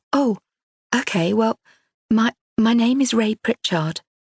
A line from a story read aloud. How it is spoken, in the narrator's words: Ray faltered